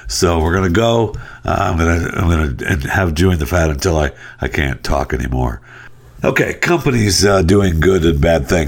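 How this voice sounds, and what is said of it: Worsening, congested throaty voice. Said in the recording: “my voice is getting worse as we go here with this mung that I have. It's hanging out just on the upper part of my chest and into my throat”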